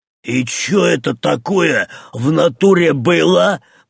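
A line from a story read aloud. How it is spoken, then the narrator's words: Wheezed, by a skull. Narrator (Russian): прохрипел череп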